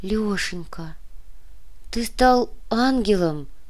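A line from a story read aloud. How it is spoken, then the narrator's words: Whisper. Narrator (Russian): прошептала Вероника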